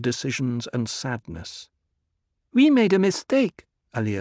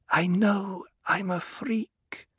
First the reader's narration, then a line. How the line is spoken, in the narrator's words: Alia whispered